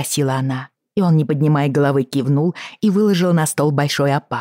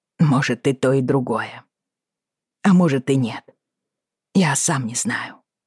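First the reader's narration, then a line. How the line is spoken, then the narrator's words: Quiet confession. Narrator (Russian): тихо признался он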